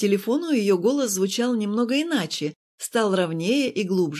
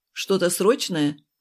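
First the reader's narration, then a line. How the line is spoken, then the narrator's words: Too rude. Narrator (Russian): Прозвучало слишком грубо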